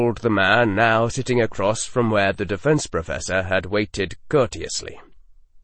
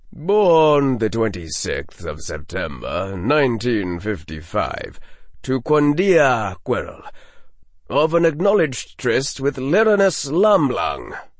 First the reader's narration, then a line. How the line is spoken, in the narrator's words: intoned the aura